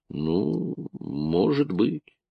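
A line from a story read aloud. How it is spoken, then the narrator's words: Muttering. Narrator (Russian): Он пробормотал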